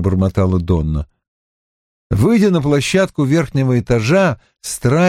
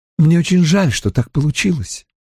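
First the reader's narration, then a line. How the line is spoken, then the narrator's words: Quiet. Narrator (Russian): тихо сказала она Донне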